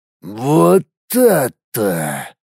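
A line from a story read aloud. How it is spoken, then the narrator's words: Hoarse, after pause. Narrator (Russian): После паузы прохрипел Граншит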